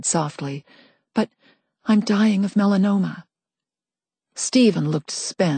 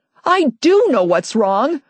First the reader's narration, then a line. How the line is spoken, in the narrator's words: I yelled